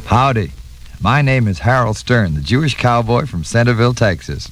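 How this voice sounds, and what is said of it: Texas drawl. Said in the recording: “My drawl is second generation Texas”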